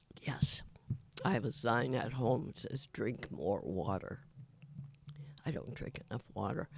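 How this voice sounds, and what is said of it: Raspy, not smooth voice. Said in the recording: “my voice is a little more raspy. Like today, it's kind of raspy. ... It's not smooth sounding.”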